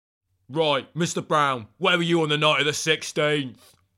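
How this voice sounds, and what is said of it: Tough bad-cop interrogator voice. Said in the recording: “Why are you doing that voice? ... be the bad cop”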